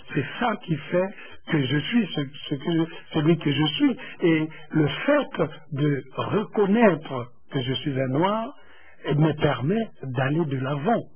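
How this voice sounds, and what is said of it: Congolese-accented French. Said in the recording (French): “accent congolais qui est là. Celui que j'ai actuellement lorsque je suis en train de parler.”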